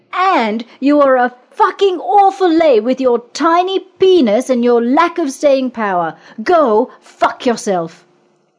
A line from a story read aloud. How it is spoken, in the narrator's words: she yelled so the whole floor could hear